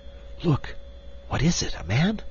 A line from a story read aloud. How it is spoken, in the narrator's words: she whispered